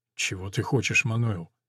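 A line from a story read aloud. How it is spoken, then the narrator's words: Mumbling, young doctor. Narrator (Russian): бормочет юный врач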